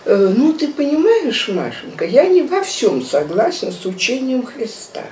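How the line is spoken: Calm professorial voice. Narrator (Russian): Папа своим спокойным профессорским голосом начал говорить

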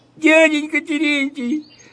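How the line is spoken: Sobbing. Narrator (Russian): всхлипывает Фёкла

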